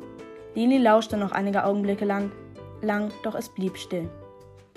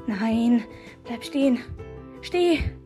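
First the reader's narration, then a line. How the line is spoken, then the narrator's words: Frantic pleading. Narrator (German): flehte Lini hektisch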